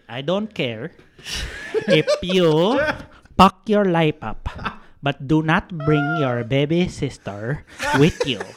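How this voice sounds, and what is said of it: Imitates another person's accent. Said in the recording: “I'll do it in his accent.”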